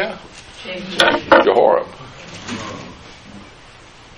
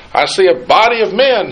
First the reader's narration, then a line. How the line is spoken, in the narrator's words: he shouted